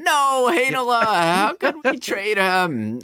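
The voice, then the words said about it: Whiny sports fan voice. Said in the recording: “my impression of a whiny Jets fan”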